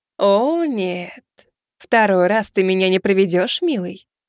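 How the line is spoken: Purring, teasing. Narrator (Russian): промурлыкала она

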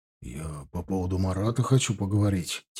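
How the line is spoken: Quiet. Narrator (Russian): тихо произнес он

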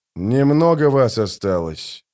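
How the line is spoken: Calm. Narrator (Russian): спокойно ответил Геральт

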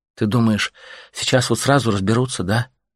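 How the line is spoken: Sighing. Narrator (Russian): вздохнула женщина

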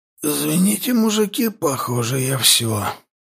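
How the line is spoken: Hoarse rasp. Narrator (Russian): прохрипел я

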